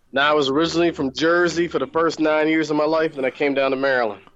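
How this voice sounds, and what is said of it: Heavy southern drawl. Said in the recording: “You have a crazy southern accent ... you got a really heavy southern accent ... That's an awesome accent ... You have a southern drawl.”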